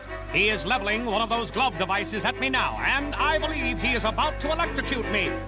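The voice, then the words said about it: Old-timey 1920s radio announcer voice. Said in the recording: “do an announcer voice ... I immediately devolve into like a 1920s radio commentator”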